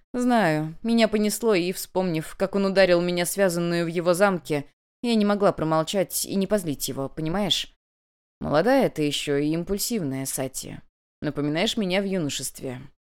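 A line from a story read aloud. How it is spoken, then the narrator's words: Grumble. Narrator (Russian): проворчал Сейгун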